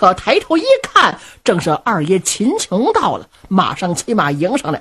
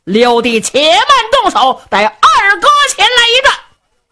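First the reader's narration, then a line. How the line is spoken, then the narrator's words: Loud shout. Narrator (Chinese): 二爷秦琼高声喊嚷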